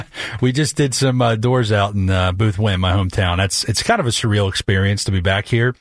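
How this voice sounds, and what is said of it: Delaware County Philadelphia-area accent. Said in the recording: “I can tell with the accent. ... Delaware County, born and raised.”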